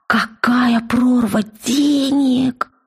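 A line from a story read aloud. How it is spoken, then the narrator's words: Hoarse exclamation. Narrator (Russian): сипло вырвалось у Вельки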